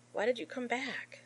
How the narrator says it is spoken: gasped out between waves of pain

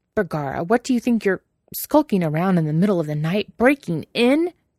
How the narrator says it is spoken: He splutters, more a series of indignant noises than a complete thought

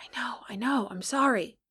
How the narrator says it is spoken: Johnny whispered back

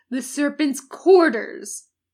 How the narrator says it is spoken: snapped Hester

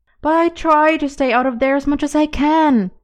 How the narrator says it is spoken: pleading

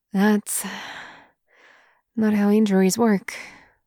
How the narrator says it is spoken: the other man sighs

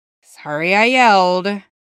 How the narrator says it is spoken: he sighs again

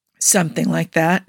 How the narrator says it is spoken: said around a sigh

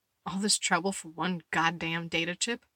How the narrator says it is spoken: Letty muttered

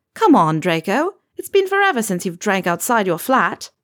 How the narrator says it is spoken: Susan had said

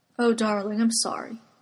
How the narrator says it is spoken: Eames murmurs, mouth warm against the knuckles of Arthur's hands

